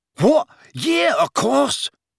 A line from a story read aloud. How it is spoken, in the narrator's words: said Dean excitedly